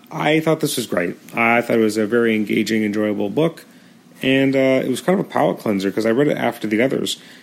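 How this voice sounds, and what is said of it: Strained, fading hoarse voice. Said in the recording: “my voice is going a little bit, so recording an episode is a little bit harder right now”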